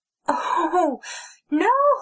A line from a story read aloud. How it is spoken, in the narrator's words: Snow wailed